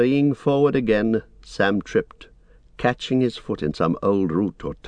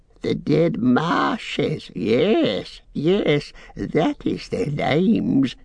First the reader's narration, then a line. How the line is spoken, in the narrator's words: he cackled